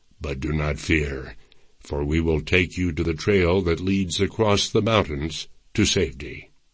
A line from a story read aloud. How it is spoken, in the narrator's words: Changing his tone to a conciliatory one, Kilbuck added